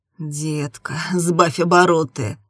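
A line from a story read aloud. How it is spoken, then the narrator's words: Groaning. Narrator (Russian): простонал он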